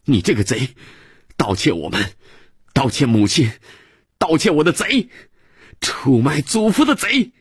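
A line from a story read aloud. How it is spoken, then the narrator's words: Child's angry shout. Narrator (Chinese): 孩子脑袋撞着壁炉的铁架，爬起来跪着，仰着脸气哼哼地又喊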